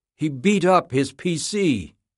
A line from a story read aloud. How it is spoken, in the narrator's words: the nurse exclaimed